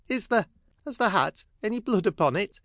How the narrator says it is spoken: Sissy faltered

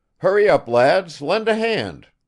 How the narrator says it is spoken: cried Nikolai Petrovich

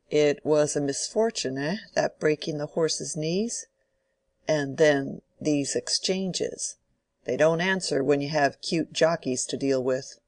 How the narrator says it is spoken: said in a comfortable tone

